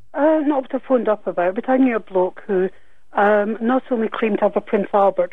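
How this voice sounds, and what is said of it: Refined, proper-sounding lady's voice. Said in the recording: “you sound like a proper lady”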